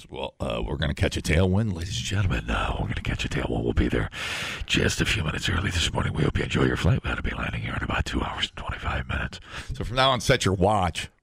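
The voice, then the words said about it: Smooth sexy airline pilot voice. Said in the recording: “do you sound like a sexy pilot?”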